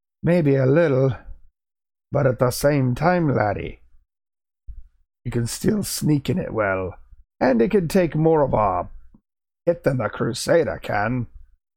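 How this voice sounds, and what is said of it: Put-on Scottish accent. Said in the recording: “It's hard to do the Scottish accent with Grim.”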